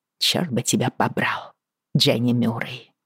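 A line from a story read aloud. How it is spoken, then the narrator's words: Muttered through gritted teeth. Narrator (Russian): пробормотала сквозь зубы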